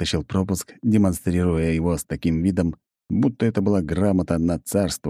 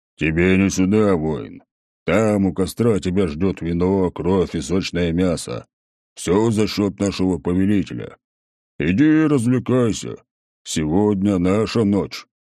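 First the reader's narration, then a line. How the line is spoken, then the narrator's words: Troll's deep bass. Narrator (Russian): один из троллей … пробасил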